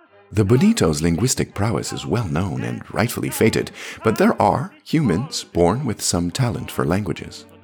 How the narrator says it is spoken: I said, keeping my tone playful and modest

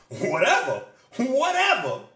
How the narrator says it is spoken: Rio shouts

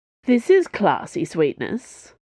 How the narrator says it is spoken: said a mocking voice

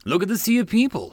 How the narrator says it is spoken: Shireen laughed

